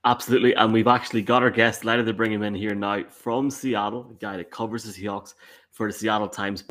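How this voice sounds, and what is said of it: Irish accent. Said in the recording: “Blame my Irish accent.”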